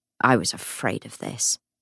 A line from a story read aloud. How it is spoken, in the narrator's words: Matthew muttered